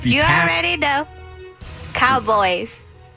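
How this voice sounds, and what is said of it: Put-on Texan accent. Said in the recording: “Was that an accent? ... Yes, Texan.”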